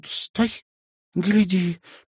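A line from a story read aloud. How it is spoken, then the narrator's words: Squeaking. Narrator (Russian): пискнула Аста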